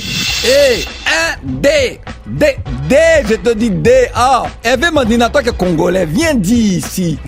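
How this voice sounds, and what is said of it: Put-on Ivorian French accent. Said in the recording (French): “je fais ça avec l'accent ivoirien”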